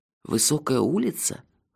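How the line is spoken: Hoarse question. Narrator (Russian): хрипло спросил я

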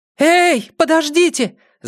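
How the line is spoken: Shouting. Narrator (Russian): закричала она

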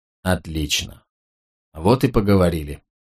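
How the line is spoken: Muttering. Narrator (Russian): пробормотал Клей

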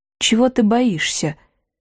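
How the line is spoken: Quiet question. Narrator (Russian): негромко спросил проф

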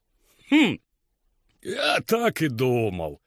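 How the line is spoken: Grumbling. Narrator (Russian): проворчал кузнец

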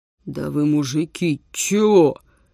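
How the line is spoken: Irritated hoarse bass, trailing off. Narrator (Russian): Раздраженным сиплым басом начал Витюня и не закончил

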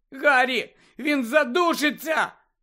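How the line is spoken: Shout. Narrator (Ukrainian): крикнула Джинні

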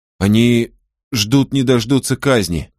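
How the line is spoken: Stammering narration. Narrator (Russian): запинаясь, продолжал рассказывать он

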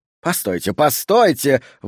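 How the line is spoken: Exclaimed. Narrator (Russian): воскликнул Саттер

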